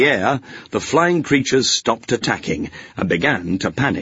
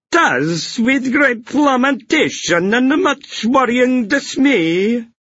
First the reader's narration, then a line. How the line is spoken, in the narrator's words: the pixie groaned